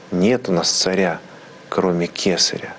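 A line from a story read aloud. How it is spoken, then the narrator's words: Plain. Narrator (Russian): говорит избранный народ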